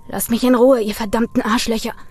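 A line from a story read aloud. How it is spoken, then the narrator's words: Hissed snarl. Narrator (German): fauchte Brian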